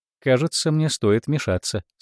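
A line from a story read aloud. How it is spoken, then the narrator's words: Calm. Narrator (Russian): спокойно сказала Норма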